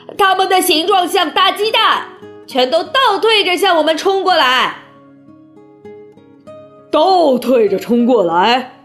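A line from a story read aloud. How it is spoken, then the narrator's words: Interrupting, clamoring. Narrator (Chinese): 香克斯插进话来，嚷嚷着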